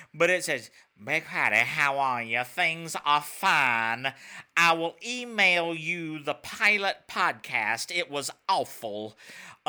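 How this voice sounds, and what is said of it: Imitates another person's voice. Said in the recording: “I am not a voice actor ... my best impression”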